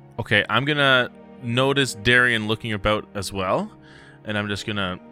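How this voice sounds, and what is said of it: Usual voice. Nothing is said of it.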